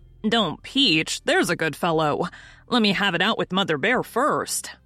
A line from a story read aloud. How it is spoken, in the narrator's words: returned Tom, with a heavy sigh